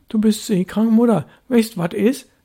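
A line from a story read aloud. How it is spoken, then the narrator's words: Calling after someone. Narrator (German): rief Störtebäcker hinter ihr her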